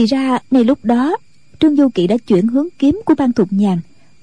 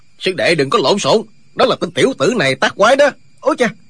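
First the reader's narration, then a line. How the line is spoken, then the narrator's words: Old man shouting. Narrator (Vietnamese): Lão nhân quát lên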